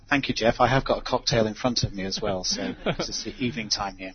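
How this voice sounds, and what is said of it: English accent. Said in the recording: “his English accent will make us all feel smarter”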